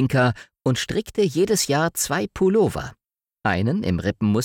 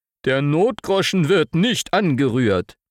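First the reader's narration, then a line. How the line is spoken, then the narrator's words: Calling out. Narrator (German): rief er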